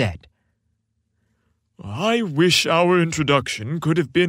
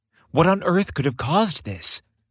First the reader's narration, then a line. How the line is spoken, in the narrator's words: Santa sighed heavily